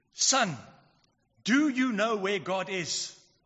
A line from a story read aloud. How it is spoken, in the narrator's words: he was a really huge man with a booming voice, he asked him sternly